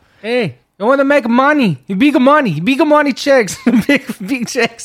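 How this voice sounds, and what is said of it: Put-on Brazilian accent. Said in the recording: “I just wanted to do my Brazilian accent.”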